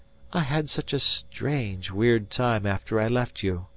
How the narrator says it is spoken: she crooned softly

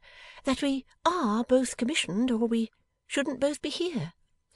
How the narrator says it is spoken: faltered Bella

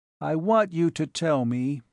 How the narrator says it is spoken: he said in a lifeless voice

